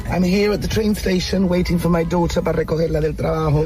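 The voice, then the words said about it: English with a Llanito accent. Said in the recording (Spanish): “inglés con acento llanito, pero perfecto”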